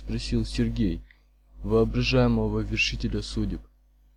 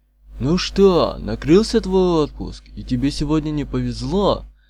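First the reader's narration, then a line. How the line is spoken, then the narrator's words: Cheerful hoarse shout. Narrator (Russian): весело крикнул Колесников горе-пулеметчику так громко, как позволяла пересохшая глотка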